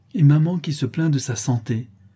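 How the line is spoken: Exclaimed irritably. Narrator (French): s'écria-t-elle avec humeur

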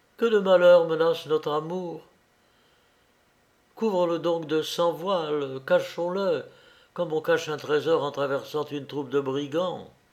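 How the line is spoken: Cried out. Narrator (French): s'écria Leïla

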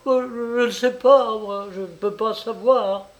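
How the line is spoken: Stammering. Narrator (French): dit-elle en bredouillant

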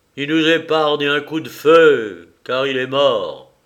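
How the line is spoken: Slow exclamation. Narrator (French): s'écria lentement Bartholoméo, en regardant à terre

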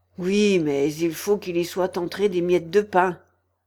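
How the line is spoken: Grumbling hatter. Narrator (French): grommela le chapelier

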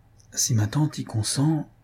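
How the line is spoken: Stammering. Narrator (French): balbutia Louise

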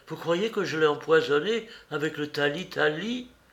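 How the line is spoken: Moan. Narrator (French): gémit-elle

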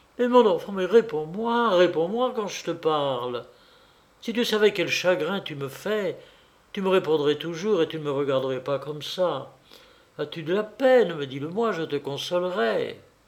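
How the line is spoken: Insistent pleading. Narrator (French): elle insistait, le suppliant

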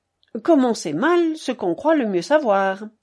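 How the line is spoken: Curt, dry. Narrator (French): dit sèchement

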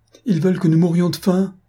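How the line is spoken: Sobbing child crying out. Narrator (French): s'écria l'enfant avec un redoublement de sanglots

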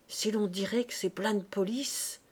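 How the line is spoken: Murmuring. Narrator (French): murmura Madame Lecœur

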